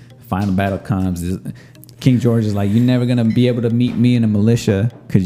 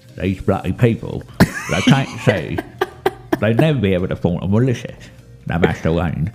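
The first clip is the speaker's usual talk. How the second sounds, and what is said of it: British Michael Caine impression. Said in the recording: “You want the British accent? You want Michael Caine? ... it's like Michael Caine's here”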